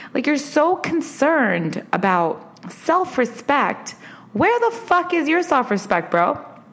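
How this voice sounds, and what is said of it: Angry, rising higher-pitched voice. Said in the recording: “my voice is getting higher because I'm so angry about this topic”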